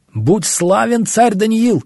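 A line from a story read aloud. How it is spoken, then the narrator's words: Shouted. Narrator (Russian): закричал кто-то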